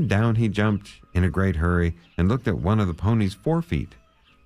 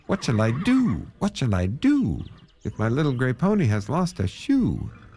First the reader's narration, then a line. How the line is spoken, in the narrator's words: he cried out